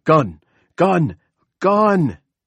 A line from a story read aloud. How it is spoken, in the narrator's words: Carter Thibodeau leaped from his seat and ran in front of his boss, screaming